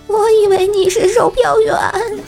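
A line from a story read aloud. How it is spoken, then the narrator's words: Glum, tearful voice. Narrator (Chinese): 老张哭丧着脸说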